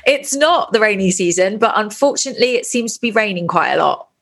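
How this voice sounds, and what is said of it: British English accent. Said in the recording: “I think we can tell from your accent that you're not from Bali.”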